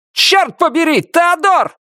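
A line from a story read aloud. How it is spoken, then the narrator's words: Shouted. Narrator (Russian): крикнул он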